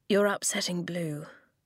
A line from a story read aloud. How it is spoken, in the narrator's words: he said quietly